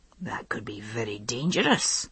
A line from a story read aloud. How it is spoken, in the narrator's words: he muttered, as though to himself